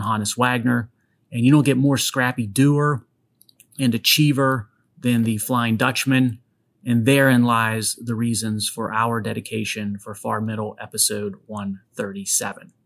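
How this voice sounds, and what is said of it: Western Pennsylvania accent, slightly Southern-sounding. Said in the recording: “my Western Pennsylvania accent ... they think my accent at times is a bit strange, sort of Southern, but not Southern ... from Western Pennsylvania and Northern Appalachia”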